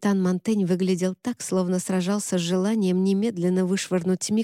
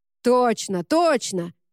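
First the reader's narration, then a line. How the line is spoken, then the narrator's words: Shout from crowd. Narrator (Russian): выкрикнул кто-то в толпе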